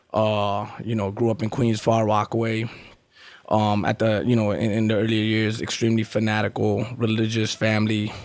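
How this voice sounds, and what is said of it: New York accent. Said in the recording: “obviously the accent is from New York”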